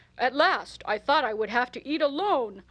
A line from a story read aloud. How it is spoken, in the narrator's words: he exclaimed cheerfully